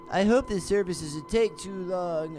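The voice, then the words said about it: Poor imitation of another person's voice. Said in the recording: “terrible Trump impression”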